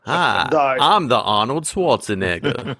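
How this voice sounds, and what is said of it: Imitates another person's voice. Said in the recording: “Your impersonation is pretty tight, though”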